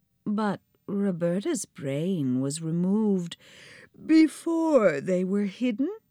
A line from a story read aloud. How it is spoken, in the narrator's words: said Sybil, yawning like a tiger